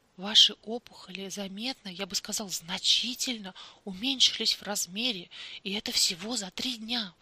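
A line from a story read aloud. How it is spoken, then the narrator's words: Incredulous exclamation. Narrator (Russian): воскликнул он, не веря своим собственным словам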